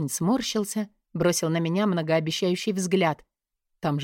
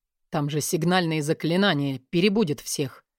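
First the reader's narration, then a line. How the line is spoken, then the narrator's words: Groaning. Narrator (Russian): Простонал он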